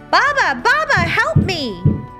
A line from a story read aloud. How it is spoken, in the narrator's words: cried out